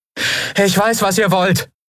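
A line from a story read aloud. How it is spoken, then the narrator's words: Calling out into distance. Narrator (German): rief Endriel in den Wald hinein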